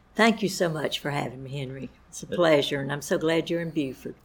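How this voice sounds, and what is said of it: Southern US accent, Lower Alabama. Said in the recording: “I am from Lower Alabama, as you can probably tell by my accent ... why is my accent so different from the South Carolina accents?”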